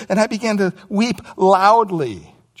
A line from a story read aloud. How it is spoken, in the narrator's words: John says